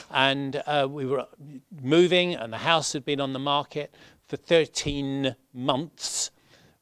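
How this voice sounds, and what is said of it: London accent. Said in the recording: “I'm a Londoner, in case you can't tell from my accent.”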